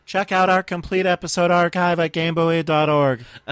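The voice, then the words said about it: Mimicking the co-host's voice. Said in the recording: “is that your impression of me? That's real cute.”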